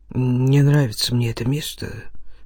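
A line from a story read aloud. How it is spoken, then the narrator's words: Muttering. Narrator (Russian): пробормотал он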